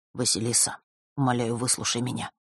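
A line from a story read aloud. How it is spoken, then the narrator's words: Quiet. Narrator (Russian): тихо произнес друг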